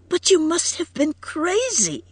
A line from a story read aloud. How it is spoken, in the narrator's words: cried Edith brokenly